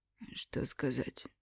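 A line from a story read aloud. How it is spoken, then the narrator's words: Hoarse strained voice. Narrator (Russian): Тот говорил посаженным голосом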